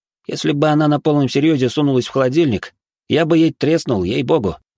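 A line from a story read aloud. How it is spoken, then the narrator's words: Snorting. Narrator (Russian): Борис хмыкнул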